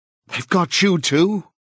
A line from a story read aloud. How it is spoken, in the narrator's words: he cried